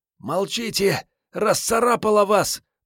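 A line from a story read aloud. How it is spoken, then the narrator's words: Hoarse rasp. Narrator (Russian): просипела ворона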